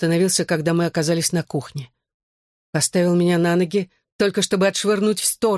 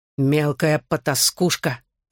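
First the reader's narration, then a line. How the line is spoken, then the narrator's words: Father growling. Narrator (Russian): рычал отец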